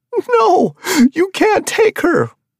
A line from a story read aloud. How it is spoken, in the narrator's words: the man wailed